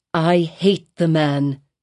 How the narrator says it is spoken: said Hester Prynne bitterly

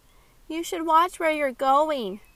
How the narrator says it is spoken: Kylie called out after them

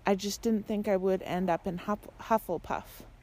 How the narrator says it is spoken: she said

